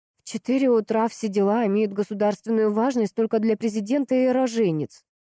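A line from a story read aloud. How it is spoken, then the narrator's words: Grumbling. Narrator (Russian): проворчала она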